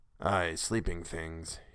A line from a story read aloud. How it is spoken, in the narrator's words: he muttered